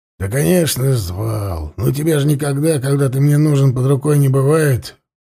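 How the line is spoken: Grumbled. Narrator (Russian): буркнул тот

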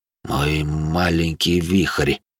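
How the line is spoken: Warm murmur. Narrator (Russian): пробормотал Винсент Кассиди с необычной теплотой

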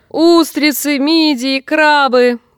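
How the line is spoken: Shouting. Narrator (Russian): кричала она

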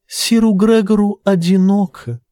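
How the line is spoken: Sweet accented voice. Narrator (Russian): добавила Тиена сладким септинским голоском

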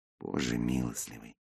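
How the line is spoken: Muttered under breath. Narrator (Russian): пробормотал я не в трубку, а себе под нос

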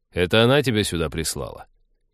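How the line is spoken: Mocking snort, blunt advice. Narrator (Russian): Ликвидатор издевательски хмыкнул и без обиняков посоветовал

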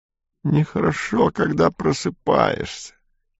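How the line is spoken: Muttering. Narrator (Russian): бормотал Ремайер

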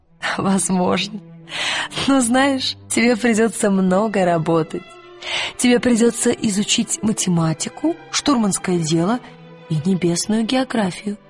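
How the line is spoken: Laughing then speaking. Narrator (Russian): Миссис Колтер засмеялась и сказала

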